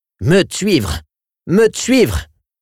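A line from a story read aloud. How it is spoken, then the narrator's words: Howling shout. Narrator (French): hurlait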